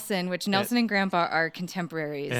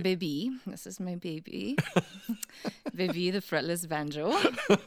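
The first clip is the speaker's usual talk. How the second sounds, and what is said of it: Put-on accent with attitude. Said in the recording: “It helps if you say it with that accent. ... You have to have an accent, a little bit of attitude with that.”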